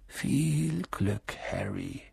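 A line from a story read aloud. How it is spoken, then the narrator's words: Murmuring. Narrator (German): murmelte er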